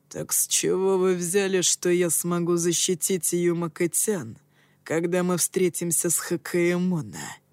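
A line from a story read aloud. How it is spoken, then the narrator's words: Growling. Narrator (Russian): прорычал он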